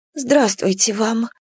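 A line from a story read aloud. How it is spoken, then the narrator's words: Frightened mumble. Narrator (Russian): пробормотала Парася, снова почувствовавшая себя запуганным воробьем, над которым кружит коршун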